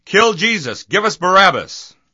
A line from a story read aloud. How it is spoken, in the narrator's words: the whole crowd shouted